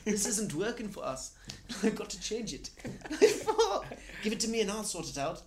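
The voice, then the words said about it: Good put-on accent, imitates another person. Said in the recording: “That's a good accent, actually.”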